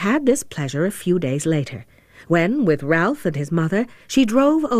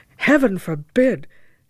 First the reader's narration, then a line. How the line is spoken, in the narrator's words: cried Ralph with ardor